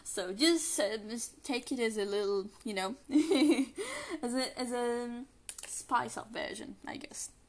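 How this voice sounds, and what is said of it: Non-native English accent, shifting. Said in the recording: “my accent is a little different than the last recording. Again, English is not my first language, so whenever I talk English, my accent can change without me even noticing. So sometimes I sound a little bit more British, sometimes I sound American, sometimes I sound Canadian.”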